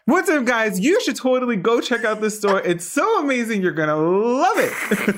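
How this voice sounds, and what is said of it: Upbeat presenter announcer voice. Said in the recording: “Give me your announcer voice ... it's our video voice ... if I use my real voice, it's not as exciting”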